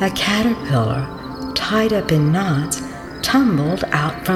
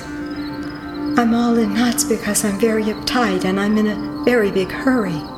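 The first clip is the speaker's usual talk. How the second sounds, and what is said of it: Rushed, hurried voice. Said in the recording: “in a rushed voice”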